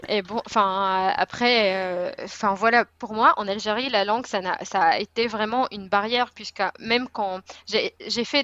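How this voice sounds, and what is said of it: Speaks French with a foreign accent. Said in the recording (French): “Là, je sais que j'ai un accent, c'est comme ça”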